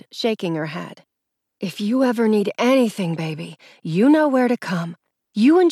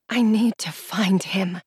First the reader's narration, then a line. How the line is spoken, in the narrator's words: I whispered